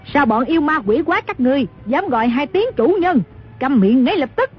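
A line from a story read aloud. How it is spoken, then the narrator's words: Furious shouting woman. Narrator (Vietnamese): Dư bà cả giận quát lên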